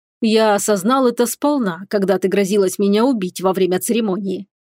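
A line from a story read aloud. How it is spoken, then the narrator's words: Wry snort. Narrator (Russian): хмыкнул Ритан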